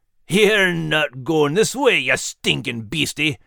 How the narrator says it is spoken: Max growled back

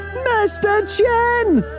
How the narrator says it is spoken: the rest of the village yelled

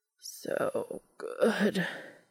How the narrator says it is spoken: Cass groaned

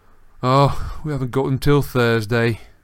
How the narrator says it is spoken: he said in a disappointed voice

